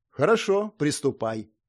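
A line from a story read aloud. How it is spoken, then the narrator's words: Calm. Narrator (Russian): кивнул спокойно Ульрио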